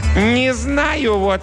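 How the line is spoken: Loud announcement. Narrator (Russian): громко объявил он

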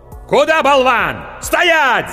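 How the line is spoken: Yelled. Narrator (Russian): заорал меч

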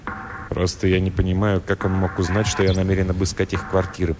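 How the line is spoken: Muttered. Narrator (Russian): пробормотал Флендри

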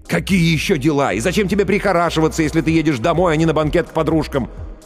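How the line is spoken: Nearly shouting. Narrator (Russian): Ллойд почти кричал

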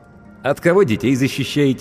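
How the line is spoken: Snide question. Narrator (Russian): ехидно поинтересовался я

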